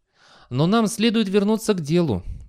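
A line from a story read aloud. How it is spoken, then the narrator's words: Sighing. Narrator (Russian): вздохнул Фастольф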